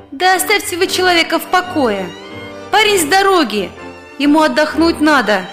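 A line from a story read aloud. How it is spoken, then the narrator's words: Sing-song angelic voice. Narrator (Russian): почти пропела своим ангельским голосочком очень красивая женщина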